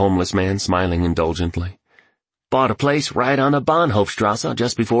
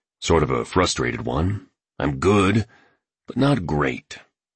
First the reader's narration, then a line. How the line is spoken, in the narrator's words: mumbled the artist